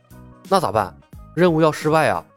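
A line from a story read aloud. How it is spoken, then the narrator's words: Hushed low voice. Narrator (Chinese): 李牧压低了声音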